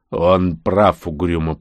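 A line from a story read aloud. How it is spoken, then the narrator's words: Grumbling. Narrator (Russian): проворчал Бигман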